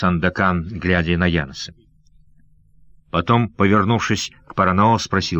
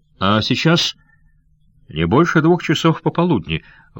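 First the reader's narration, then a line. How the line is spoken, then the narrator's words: Exclaiming. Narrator (Russian): воскликнул Янс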